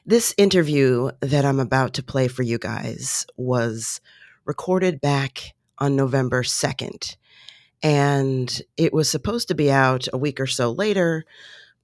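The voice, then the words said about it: Lower-pitched, sick-sounding voice. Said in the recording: “my voice is like a half of an octave lower because I've been sick”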